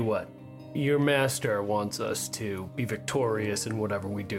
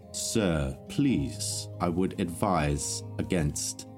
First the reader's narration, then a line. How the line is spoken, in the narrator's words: slowly tries to calm himself, takes a couple deep breaths in, and he says